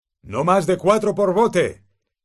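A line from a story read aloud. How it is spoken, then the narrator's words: Shouted. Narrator (Spanish): gritó Hagrid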